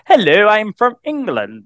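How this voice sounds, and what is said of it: Posh English accent. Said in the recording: “do the posh Queen accent ... So you're not too bad at accents after all”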